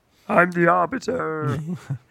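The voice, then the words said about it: Poor Yoda-like character voice. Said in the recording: “That's the worst impression of him ever... It wasn't good... That was the Arbiter Yoda. Arbitoda.”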